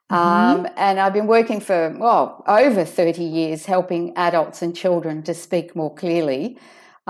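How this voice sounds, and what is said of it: Australian accent. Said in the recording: “as you can hear from my accent, I'm from Sydney, Australia”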